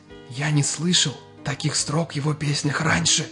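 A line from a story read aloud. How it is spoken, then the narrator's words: Smiling whisper. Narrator (Russian): улыбаясь, прошептал Саша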